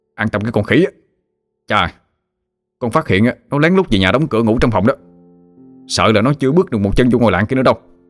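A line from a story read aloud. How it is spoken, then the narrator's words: Threatening shout. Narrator (Vietnamese): Hưng dọa nạt mà quát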